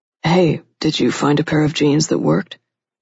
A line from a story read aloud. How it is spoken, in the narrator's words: Levi asked in a low voice